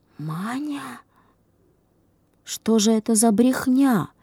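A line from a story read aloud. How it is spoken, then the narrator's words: Timid whisper. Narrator (Russian): Робко по-русски прошептал Алексей Иванович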